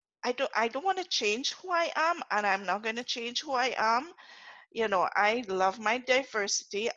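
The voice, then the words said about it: Speaks with a noticeable accent. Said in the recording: “I cannot change my accent.”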